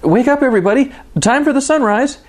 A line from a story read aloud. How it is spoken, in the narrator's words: he shouted with relief